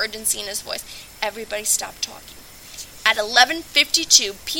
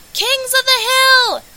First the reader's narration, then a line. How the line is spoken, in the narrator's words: Lane shouted, jumping all over the couch like a maniac